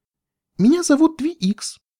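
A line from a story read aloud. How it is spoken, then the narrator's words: Joyful repetition. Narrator (Russian): радостно повторила кобылка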